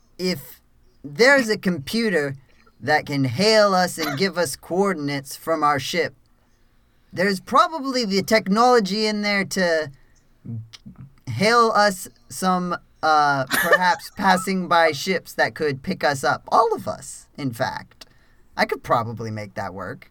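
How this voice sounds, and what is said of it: Put-on accent that keeps slipping. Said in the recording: “help your changing accent”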